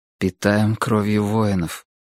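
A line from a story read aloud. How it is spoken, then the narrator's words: Quiet repetition. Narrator (Russian): тихо повторил Грым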